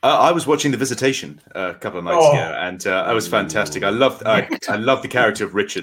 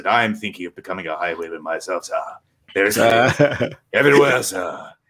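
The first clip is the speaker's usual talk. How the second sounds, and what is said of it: Imitates a character's particular accent. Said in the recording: “he speaks with a very, very particular accent ... He's got the most amazing voice”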